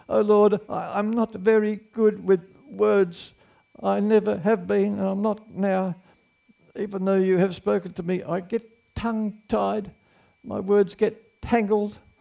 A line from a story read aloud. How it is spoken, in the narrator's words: Moses pleaded with the Lord